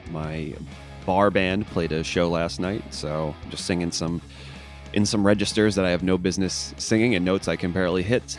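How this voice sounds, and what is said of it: Hoarse, strained voice. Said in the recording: “my throat is a little hoarse today ... I kind of shredded my vocal cords a bit ... if I'm a little hoarse”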